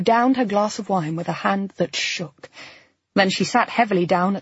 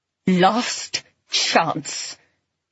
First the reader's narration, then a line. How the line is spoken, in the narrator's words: she said savagely